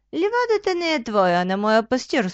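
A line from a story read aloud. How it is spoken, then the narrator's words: Calm reply. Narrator (Bulgarian): спокойно отговорил овенът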